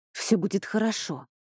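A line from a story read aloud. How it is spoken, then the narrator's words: Irritated. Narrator (Russian): раздраженно сказала Хильда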